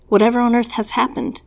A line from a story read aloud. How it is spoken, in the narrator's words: I exclaimed